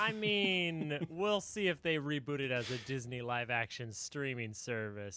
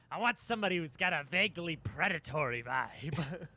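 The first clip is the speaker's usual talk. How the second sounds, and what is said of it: Imitates another person's voice. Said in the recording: “do my Gene voice.”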